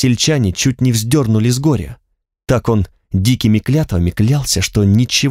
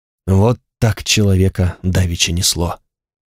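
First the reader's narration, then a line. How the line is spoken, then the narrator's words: Hoarse merchant man. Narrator (Russian): хрипло сказал незнакомый мужчина, по виду купец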